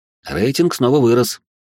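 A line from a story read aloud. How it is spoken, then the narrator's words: Snorting chuckle. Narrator (Russian): хмыкнул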